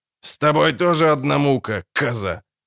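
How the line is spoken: Angry snort. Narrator (Russian): зло фыркнул

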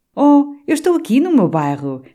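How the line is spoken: Joyful exclamation. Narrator (Portuguese): exclamava alegremente Maurício

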